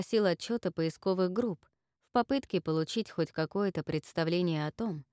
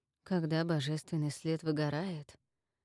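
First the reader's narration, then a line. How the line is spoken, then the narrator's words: Muttered. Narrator (Russian): пробормотал Макс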